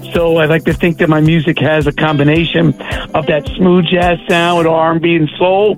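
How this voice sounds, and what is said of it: New York accent. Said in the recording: “I'm detecting a New York accent.”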